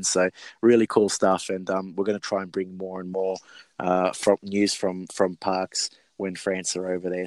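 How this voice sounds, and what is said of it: Hoarse, raspy voice. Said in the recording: “I think I'm losing my voice, so you could probably hear it like I've had about a pack, two or three packets of cigarettes.”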